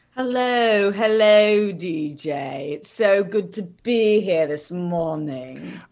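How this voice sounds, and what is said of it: Put-on British accent. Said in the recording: “British, obviously, you just whipped that out ... that was an on-point, excellent, all of England accent ... it sounds just as good as a lot of British actors when they try to do an American accent”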